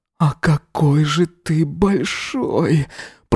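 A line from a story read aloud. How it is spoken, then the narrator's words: Moaning. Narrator (Russian): Простонал он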